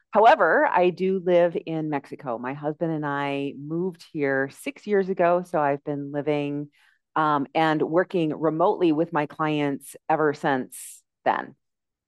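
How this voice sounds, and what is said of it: American English accent. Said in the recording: “from your, my accent, you can probably tell that I am from the United States”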